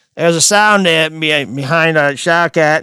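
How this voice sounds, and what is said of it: Attempted Australian accent, sounds Kennedy-like. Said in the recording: “let me work my Australian accent ... Wait, that sounds like a Kennedy.”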